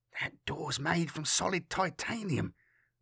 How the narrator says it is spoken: the security rating whispered

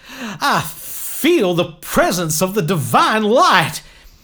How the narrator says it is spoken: Michael shouted as he rose into the air

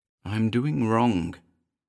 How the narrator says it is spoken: muttered

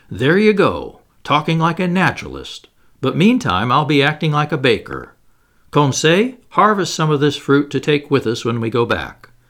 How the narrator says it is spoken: Ned Land exclaimed

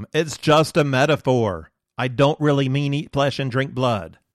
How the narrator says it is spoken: I would have cried after them

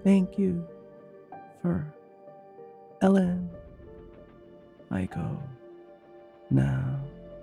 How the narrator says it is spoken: she cooed back, her voice trailing off in a gentle echo that bounced along the shaft

